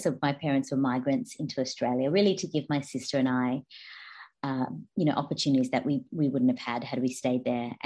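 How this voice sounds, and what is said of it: Australian accent. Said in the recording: “you can tell by my accent, I'm Australian.”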